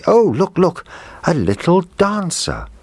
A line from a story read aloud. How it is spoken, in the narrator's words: the little girl cried out happily